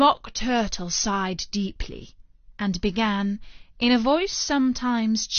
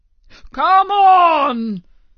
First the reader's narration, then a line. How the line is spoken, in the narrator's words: cried the Gryphon